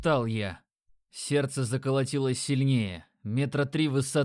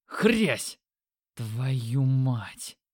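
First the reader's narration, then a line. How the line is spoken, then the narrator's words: Exhaled. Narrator (Russian): выдохнул я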